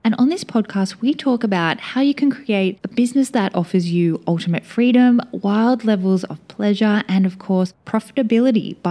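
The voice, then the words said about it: Voice sounds unwell, not usual. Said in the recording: “my voice sounds a little bit different... upper respiratory infection... my voice still is not its usual self”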